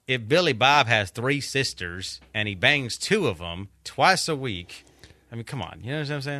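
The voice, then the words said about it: Failed put-on redneck accent. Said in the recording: “a Hispanic guy trying to do a redneck accent. It's just a complete fail.”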